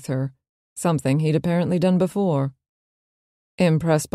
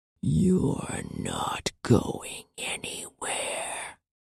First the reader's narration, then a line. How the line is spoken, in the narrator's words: he whispered in a voice that sounded nothing like his own